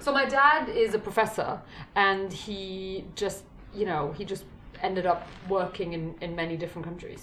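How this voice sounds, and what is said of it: American accent. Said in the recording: “I sound like I'm kind of an American ... I have an American accent”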